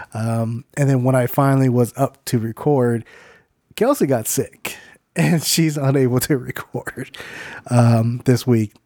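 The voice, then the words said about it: Sick-sounding voice. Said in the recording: “I got very sick. Matter of fact, I'm still kind of sick, as you can tell by my voice.”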